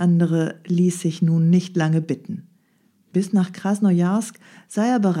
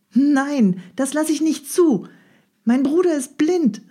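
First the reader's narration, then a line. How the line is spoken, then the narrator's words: Shout. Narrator (German): rief Nadja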